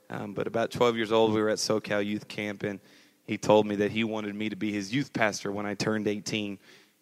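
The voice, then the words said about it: Slight twang in accent. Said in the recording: “I have a little bit of a twang now”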